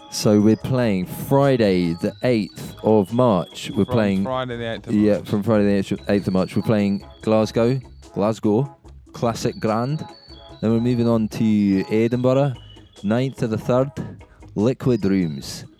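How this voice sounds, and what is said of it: Put-on Scottish accent. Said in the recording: “Is it bad to do that accent? ... it's because we're trying to appeal to people from Scotland ... Without doing the accent.”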